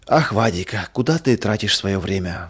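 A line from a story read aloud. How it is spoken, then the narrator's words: Mother's sigh. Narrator (Russian): вздохнула мама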